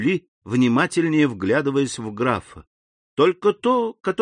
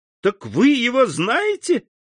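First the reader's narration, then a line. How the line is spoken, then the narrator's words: Joyful exclamation. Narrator (Russian): воскликнула Жюли с заблестевшими от радости глазами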